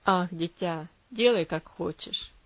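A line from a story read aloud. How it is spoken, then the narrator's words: Weary sigh. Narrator (Russian): устало вздохнул он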